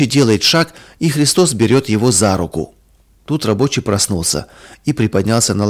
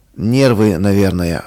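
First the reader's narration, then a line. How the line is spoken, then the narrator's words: Sigh. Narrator (Russian): вздохнул он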